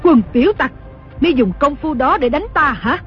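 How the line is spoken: Furious shouting scolding. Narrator (Vietnamese): Đồng mổ cả giận quát mắng

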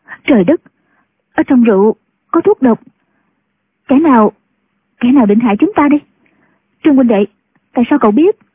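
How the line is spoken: Frightened, trembling. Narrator (Vietnamese): Ngũ cô sợ hãi, run cả người, nói

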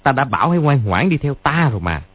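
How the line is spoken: Sneering. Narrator (Vietnamese): cười khẩy nói

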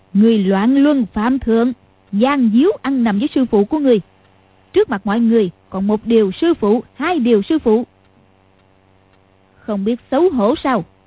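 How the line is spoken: Smiling. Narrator (Vietnamese): Lý Mạc Sầu mỉm cười nói

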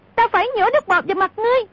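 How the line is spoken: Shrieking. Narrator (Vietnamese): Cúc Kiếm thét lên

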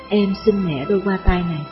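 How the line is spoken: Gentle. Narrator (Vietnamese): Nàng dịu dàng nói

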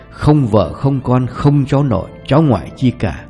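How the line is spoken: Deadpan. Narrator (Vietnamese): Ông Thu nói với giọng tỉnh queo

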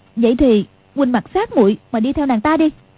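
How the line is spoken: Angry. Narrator (Vietnamese): Quách Phù tức giận

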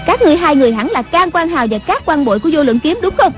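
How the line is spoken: Loud shout. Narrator (Vietnamese): Người đứng giữa quát lớn

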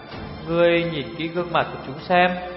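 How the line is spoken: Sighing. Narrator (Vietnamese): Tiểu Phi thở dài

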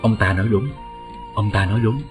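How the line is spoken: Soft cold laughing voice. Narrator (Vietnamese): một thân ảnh khe khẽ cười lạnh nói

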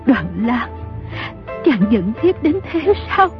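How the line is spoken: Trembling question. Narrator (Vietnamese): Dương phu nhân run rẩy hỏi

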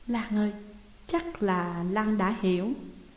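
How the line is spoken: Very soft question. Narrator (Vietnamese): hỏi thật khẽ

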